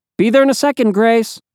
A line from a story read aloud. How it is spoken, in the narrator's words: yelled